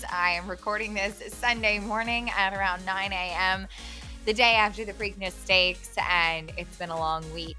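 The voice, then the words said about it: Raspy voice. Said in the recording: “Don't mind my raspy voice.”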